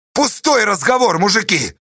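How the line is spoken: Sudden angry shout. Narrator (Russian): вдруг гневно крикнул Корнила Нелюбин

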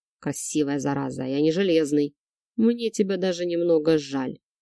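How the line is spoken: Amused snort. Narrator (Russian): хмыкнув, произнес я

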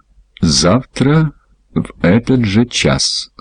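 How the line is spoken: Plain. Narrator (Russian): сказал Джонни

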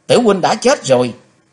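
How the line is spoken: Screaming. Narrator (Vietnamese): Trong tiếng thét

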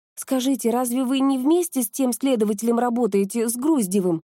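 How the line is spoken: Plain. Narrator (Russian): спросила Нурхаят

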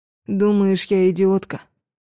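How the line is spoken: Heavy sigh. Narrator (Russian): Тяжко вздохнув

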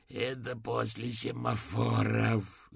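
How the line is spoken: Vexed groan. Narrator (Russian): застонал с досады

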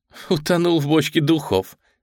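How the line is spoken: Laughing to tears. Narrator (Russian): Сэм расхохоталась до слез

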